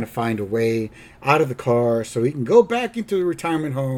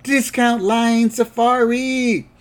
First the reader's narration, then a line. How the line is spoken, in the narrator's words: everybody yells out